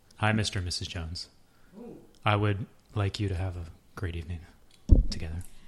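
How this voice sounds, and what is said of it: Sultry, seductive voice. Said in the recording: “she has the sexiest voice in podcast ... Say that in your sexiest voice.”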